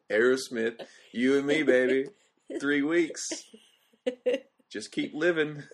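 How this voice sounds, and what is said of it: Poor imitation of another person's voice. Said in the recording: “I don't even sound like it... That's terrible. That's a terrible impression.”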